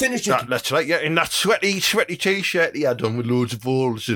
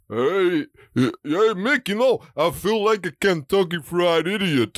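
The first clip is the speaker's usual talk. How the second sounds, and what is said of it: Rocky Balboa impression. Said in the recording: “are you influenced by Rocky Balboa? ... Can I show you my impression? ... do your impression.”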